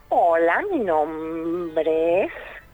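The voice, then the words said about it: Witch character voice. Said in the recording (Spanish): “Tiene voz de bruja.”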